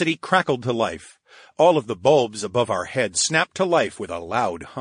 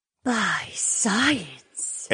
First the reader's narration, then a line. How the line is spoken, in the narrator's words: Edeny breathed